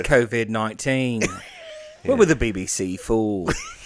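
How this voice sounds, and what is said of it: Put-on British accent. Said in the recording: “you got to do it in the British accent ... do it in British”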